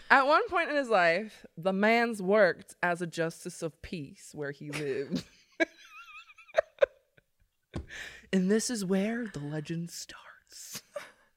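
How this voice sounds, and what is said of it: Put-on Southern US accent. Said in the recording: “You need to change accents, like every part of the story. ... It's every section. All the way in freaking Maine, and I'm like speaking a southern accent.”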